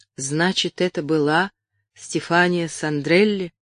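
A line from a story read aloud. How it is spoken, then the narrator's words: Tired, flat voice after pause. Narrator (Russian): помолчав, проговорила Элен усталым, бесцветным голосом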